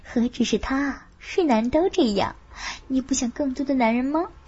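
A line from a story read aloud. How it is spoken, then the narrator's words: Whisper. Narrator (Chinese): 凤芝也悄声说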